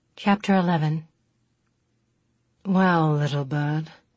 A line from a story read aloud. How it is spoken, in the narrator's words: Chris said lazily